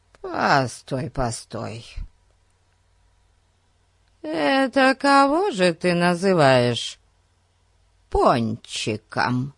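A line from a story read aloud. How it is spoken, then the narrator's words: Hoarse question. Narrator (Russian): Спросила она хриплым голосом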